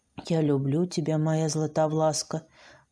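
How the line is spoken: Relieved whisper. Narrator (Russian): прошептал Захар, тоже вздыхая с облегчением

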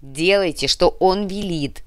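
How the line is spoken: Barking. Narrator (Russian): рявкнул Гинзбург

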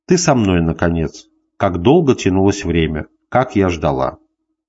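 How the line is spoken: Blissful blushing whisper. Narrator (Russian): краснея блаженно шептала

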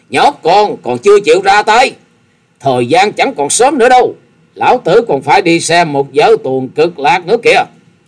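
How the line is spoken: Impatient old man shouting. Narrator (Vietnamese): lão già áo xanh không đợi được hét lên

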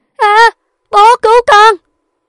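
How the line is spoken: Woman screaming. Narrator (Vietnamese): Cô hét lên

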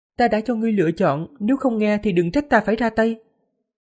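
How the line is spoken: Smiling. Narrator (Vietnamese): Diệp Phàm mỉm cười, nói

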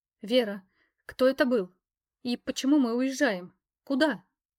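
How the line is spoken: Mother's trembling voice. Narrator (Russian): дрожащим голосом спросила мама

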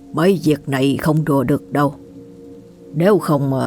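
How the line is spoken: Worried sighing. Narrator (Vietnamese): Ông Lan lo lắng, buông tiếng thở dài rồi cảm thán

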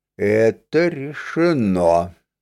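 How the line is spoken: Muffled, hollow. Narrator (Russian): глухо ответил Серж

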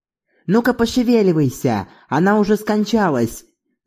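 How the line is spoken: Wailing mourners. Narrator (Russian): завопили плакальщицы

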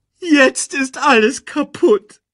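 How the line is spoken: Wailing. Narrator (German): jammerte Timon

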